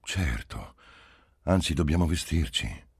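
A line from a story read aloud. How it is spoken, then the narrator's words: Sighing. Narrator (Italian): egli disse con un sospiro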